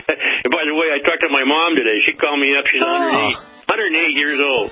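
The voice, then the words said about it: Southern US accent. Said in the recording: “I can't really get rid of that southern accent”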